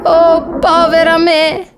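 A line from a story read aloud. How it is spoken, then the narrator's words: Sobbing, starting to cry. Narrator (Italian): singhiozzò Alice, iniziando a piangere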